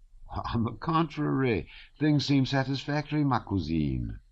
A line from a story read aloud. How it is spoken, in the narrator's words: said Pierre in the bantering tone he habitually adopted toward her, always feeling uncomfortable in the role of her benefactor